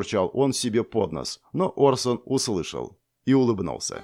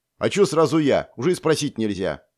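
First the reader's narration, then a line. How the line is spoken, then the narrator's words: Snorted. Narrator (Russian): фыркнул тот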